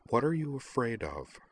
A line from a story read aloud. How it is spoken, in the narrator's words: Utana asked her in a softer tone